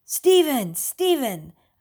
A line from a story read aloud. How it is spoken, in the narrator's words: a man's voice called out